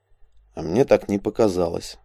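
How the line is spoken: Very quiet. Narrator (Russian): совсем уж тихо произнес Элик

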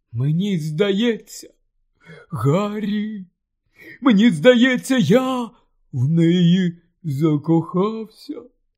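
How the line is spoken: Choked mumbled confession. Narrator (Ukrainian): здушеним голосом промимрив, зізнаючись, Рон

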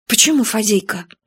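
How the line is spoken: Sighing. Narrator (Russian): вздохнул

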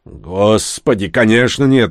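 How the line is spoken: Offended tone. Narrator (Russian): оскорбленным тоном ответил Дек

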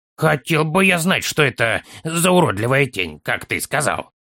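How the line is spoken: Grumbling child. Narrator (Russian): проворчал малыш

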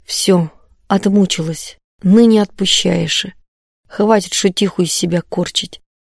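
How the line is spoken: Speaking softly. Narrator (Russian): тихонько говорит

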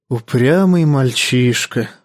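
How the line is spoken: Sighed. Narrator (Russian): вздохнул мейстер

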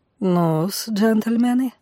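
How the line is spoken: Velvety, slight foreign accent. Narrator (Russian): заговорил он бархатным голосом, в котором чувствовался легкий иностранный акцент

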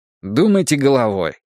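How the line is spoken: Irritated. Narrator (Russian): раздраженно предложил я

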